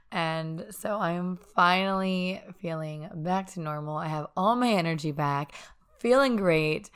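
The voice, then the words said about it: Scratchy, hoarse, raspy voice. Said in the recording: “my voice sounds a little bit different. It's kind of scratchy and hoarse ... just have this raspiness left in my throat”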